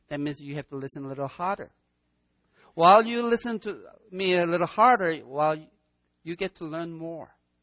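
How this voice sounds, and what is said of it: Strong non-native accent, broken English. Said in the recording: “a guy who speaks broken English with a strong accent ... my accent is strong, I have a broken English, that means it's hard for you to understand me”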